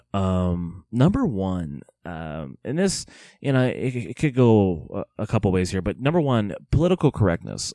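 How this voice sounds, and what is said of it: Slightly hoarse voice. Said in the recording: “you can kind of hear it in my voice. I'm not feeling too well right now. Kind of hoarse a little bit”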